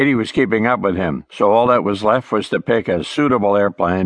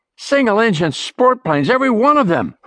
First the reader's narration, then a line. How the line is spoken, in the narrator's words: Ray shouted back at her